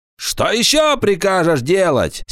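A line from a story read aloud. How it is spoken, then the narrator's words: Angry shout. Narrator (Russian): сердито закричал Паламброн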